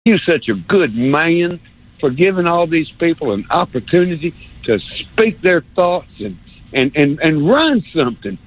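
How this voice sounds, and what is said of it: Put-on North Alabama accent. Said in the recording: “I love this North Alabama accent thing. I'm going to do it again.”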